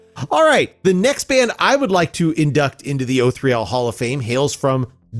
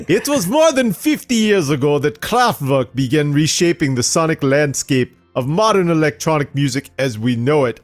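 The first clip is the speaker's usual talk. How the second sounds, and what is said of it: Fake German accent. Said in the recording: “Why do I want to do this in a fake German accent, this whole thing? ... I don't know if I can keep that up.”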